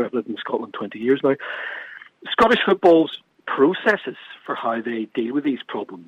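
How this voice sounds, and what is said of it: Non-Scottish accent from across the water. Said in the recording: “as you tell from my accent. I'm from across the water.”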